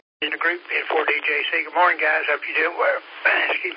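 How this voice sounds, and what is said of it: Slightly hoarse voice. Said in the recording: “I'm a little hoarse this morning.”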